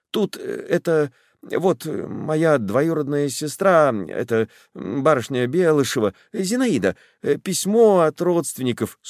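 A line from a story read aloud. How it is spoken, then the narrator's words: Stammering, incoherent. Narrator (Russian): Запинаясь, отворачивая лицо, Александров говорит малосвязно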